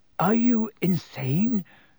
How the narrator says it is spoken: said Harry, his voice easily as croaky as Black's

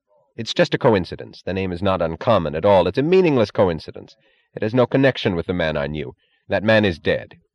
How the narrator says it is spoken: He shook his head with a shudder and said sharply

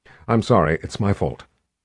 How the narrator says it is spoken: Kalin said

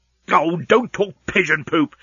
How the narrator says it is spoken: snapped Leovinus

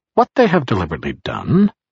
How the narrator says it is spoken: Barris said cheerfully as he labored

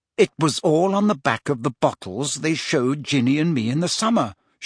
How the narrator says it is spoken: she said coldly

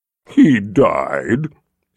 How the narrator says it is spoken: she said in a mocking tone

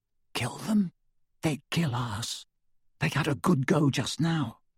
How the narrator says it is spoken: even more quietly

